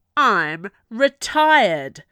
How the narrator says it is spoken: Clancy bellowed back at her

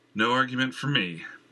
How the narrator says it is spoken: Jenner said with a sigh

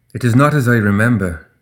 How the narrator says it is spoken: Ashlyn said, her voice full of sorrow

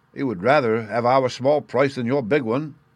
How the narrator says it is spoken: said he

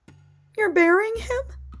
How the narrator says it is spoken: asked in a broken voice

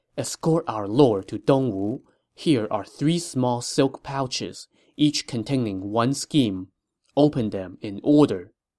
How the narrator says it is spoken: whispered in his ear

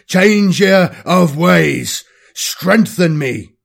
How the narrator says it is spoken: He roared once again at the top of his voice

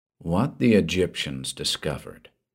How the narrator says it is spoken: he said softly

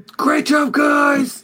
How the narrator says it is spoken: He yells

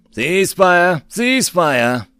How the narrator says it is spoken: Bok yelled at his men

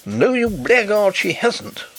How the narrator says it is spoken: wrathfully exclaimed his brother-in-law

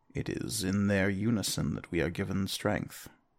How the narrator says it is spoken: Sedna just sadly she'll say

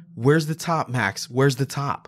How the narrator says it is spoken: yell out

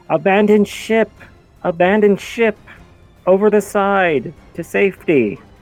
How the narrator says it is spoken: someone's yelling

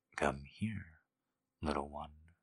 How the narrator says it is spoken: he murmured

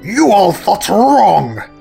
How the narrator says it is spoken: roared Robotnik

